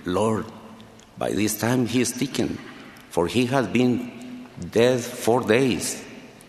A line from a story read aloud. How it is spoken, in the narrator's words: Martha timidly whispered to him